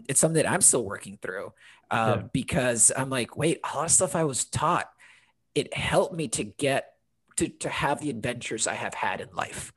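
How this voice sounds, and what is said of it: American accent. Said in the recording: “sound so American”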